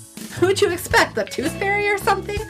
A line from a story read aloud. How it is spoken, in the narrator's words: Jessica laughed